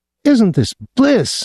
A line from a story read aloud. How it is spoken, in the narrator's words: Miss Soames, holding on tighter than ever, shouted in his ear